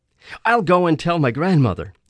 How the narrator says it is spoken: he said happily

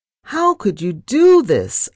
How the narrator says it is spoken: I wailed

